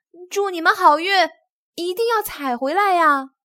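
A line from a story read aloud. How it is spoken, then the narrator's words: Group shouting. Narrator (Chinese): 他们喊道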